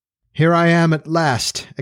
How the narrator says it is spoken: exclaimed somewhat wearily

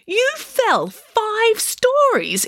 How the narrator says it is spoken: exclaimed Nanny Piggins

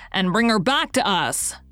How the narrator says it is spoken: cried the commissary gaily

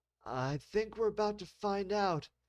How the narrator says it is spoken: Senior Officer Dorsey said between heavy gasps for breath

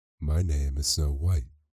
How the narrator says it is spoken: she answered

